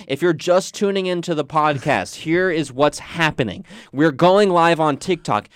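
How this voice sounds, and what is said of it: Strained voice from yelling. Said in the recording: “My voice is strained from yelling at them very much”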